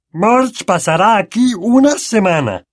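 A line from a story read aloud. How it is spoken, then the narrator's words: Growl. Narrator (Spanish): gruñó tío Vernon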